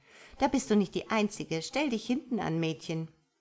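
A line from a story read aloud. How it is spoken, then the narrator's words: Mocking woman. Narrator (German): spottete die Blondine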